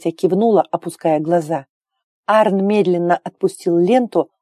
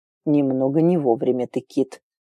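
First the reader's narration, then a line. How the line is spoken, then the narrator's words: Quiet. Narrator (Russian): тихо сказал Хьорд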